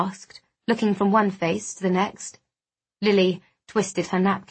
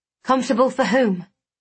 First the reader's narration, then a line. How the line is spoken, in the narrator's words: I snapped